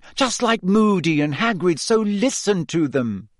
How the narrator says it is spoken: said Hermione sharply

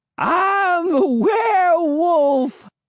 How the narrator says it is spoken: cried

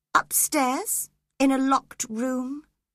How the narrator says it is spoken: he replied calmly

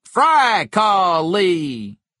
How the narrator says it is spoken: not as loudly as before

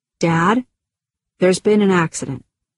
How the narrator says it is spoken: calmly said

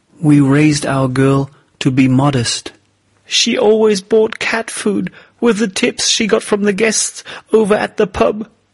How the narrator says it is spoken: his wife sobbed

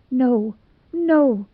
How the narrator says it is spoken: whimpered Dubby

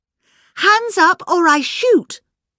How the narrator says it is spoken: cried Miss Bunner

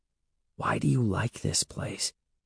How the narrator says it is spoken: Evan whispered

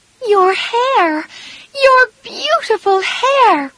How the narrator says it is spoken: cried Amy

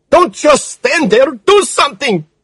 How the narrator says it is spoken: she screamed

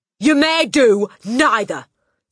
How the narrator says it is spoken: snapped the Trunchbull

